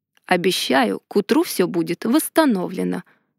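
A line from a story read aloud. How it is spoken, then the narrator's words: Soft statement. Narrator (Russian): мягко заявил Ардар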